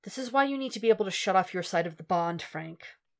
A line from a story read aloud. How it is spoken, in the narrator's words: Matt sighs and says